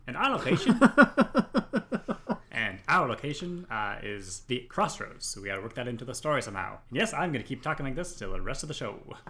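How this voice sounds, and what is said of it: Put-on shifting old-timey accent. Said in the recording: “I feel like your accent already changed ... You went from a British servant to a newspaper boy in the 1930s.”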